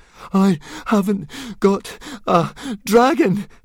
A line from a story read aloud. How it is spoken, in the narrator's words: panted Fishlegs